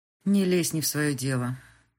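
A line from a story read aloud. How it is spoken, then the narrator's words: Gloomy speech. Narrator (Russian): мрачно сказала Крис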